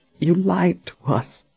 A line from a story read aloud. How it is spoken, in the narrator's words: Janet said in a pained whisper